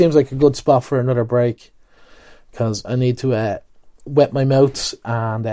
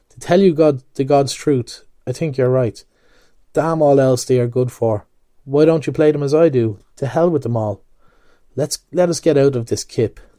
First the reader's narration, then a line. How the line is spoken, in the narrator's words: In a sudden change of tone, he added